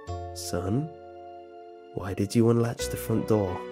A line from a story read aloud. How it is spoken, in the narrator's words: I calmly came out with